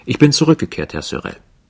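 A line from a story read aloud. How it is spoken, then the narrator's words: Confident, informative tone. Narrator (German): sagte mit sicherem Ton, wie jemand, der eine Auskunft bringt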